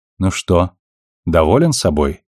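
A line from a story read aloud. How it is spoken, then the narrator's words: Plain. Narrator (Russian): спросила Наоми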